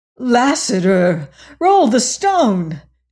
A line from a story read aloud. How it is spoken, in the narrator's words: she cried